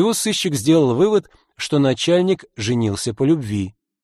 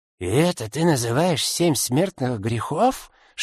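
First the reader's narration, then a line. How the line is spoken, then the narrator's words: Boss's whisper. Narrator (Russian): шепнул шеф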